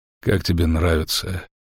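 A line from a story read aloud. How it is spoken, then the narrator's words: Calm question. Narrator (Russian): спокойно спросил он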